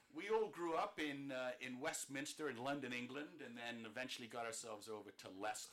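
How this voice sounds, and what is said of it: Accent mistaken for Australian or Bostonian. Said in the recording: “I love your accent. I always hope to have a nice accent like that ... a lot of people might think he's Australian or from Boston”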